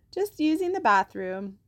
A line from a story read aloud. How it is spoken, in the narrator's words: Oscar said, trying to keep his voice cheerful and light